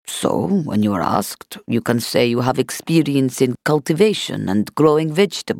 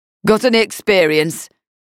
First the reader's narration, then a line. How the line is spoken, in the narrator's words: He barked